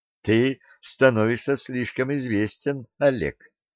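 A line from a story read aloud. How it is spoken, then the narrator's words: Laughing. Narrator (Russian): рассмеялась девушка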